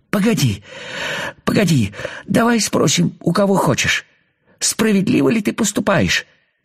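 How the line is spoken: Pleading. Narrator (Russian): взмолился муравей

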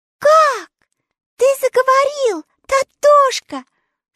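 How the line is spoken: Surprised cry. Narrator (Russian): с удивлением вскрикнула Элли

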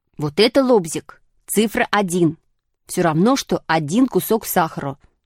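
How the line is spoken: Plain. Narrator (Russian): сказал Шишкин

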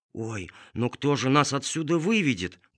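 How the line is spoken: Whisper. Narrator (Russian): прошептала кума Тыквочка

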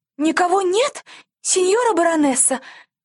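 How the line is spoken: Frightened squeal. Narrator (Russian): взвизгнула служанка, уцепившись от страха

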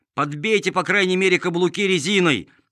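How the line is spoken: Shouting, kept awake. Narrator (Russian): кричал Чиполлино, которому эти шаги не давали спать

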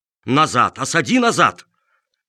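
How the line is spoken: Exasperated old man shouting. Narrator (Russian): бедный старик Чиполлоне не выдержал и закричал

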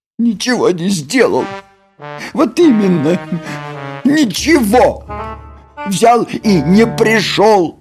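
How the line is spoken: Holding back sobs. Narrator (Russian): сказала Нюша, едва сдерживая рыдание

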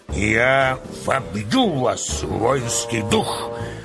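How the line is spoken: Hoarse commanding bass shout. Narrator (Russian): кричал полководец хриплым начальственным басом

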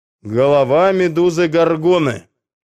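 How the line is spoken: Loud answer. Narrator (Russian): громко ответил Персей

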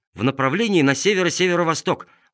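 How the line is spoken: Quick, joyful. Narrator (Russian): быстро ответил Чиполлино, чуть не подпрыгнув от радости

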